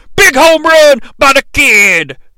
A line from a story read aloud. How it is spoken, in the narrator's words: JR yells